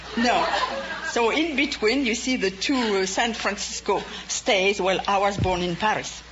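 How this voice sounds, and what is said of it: French accent. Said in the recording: “judging from your accent, you must have remained in France ... You just didn't get an accent from spending 2 weeks in France”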